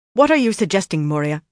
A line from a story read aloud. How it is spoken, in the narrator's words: she snapped